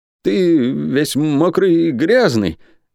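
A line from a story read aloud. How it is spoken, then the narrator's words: Stammering answer. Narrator (Russian): заикаясь, ответил Дин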